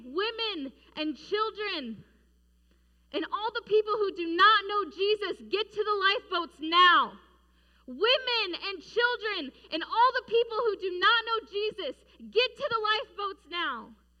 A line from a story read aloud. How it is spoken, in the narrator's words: he started yelling and he started saying